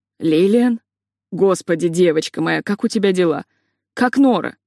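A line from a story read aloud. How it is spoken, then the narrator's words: Hoarse voice over phone. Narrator (Russian): послышался хриплый голос на другом конце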